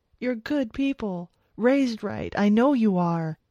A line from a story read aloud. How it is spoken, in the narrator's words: Paul was saying, words rushing out of his mouth now as he pleaded for his life